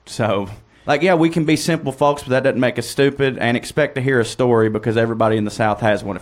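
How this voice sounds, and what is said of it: Southern American accent. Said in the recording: “If you hear my accent”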